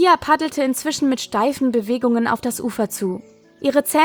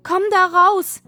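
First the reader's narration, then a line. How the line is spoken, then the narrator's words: Calling out. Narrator (German): rief Käthe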